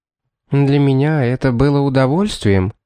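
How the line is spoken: Calm answer. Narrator (Russian): спокойно ответила Шарлотта

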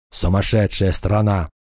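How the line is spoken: Grumble. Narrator (Russian): проворчал

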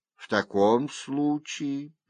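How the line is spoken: Sad judge. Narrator (Russian): печально сказал судья

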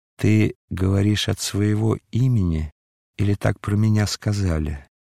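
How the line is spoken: Calm, enchantingly pleasant voice. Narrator (Russian): голос, приятнее самой чарующей музыки, сказал спокойно

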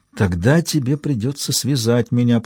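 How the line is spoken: Whisper. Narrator (Russian): прошептала она

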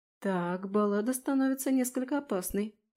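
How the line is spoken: Muttered. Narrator (Russian): пробормотала я

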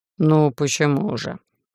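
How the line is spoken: Lazy drawl. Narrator (Russian): лениво проговорил Олаф

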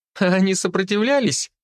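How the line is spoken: Giggling. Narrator (Russian): хихикала рыжая

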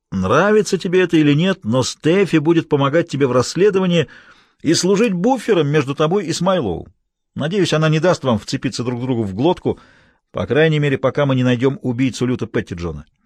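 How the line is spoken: Through gritted teeth. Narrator (Russian): ответил Хэммонд сквозь стиснутые зубы

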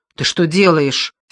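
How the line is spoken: Angry question. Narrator (Russian): сердито спросила она

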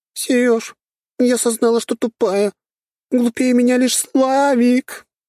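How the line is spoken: Howling. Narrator (Russian): Ответила она и взвыла

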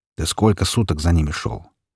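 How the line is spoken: Plain question. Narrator (Russian): спросил Хмурого Волк

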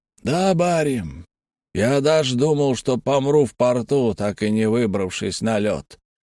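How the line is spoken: Old man's muffled reply. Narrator (Russian): глухо ответил старик

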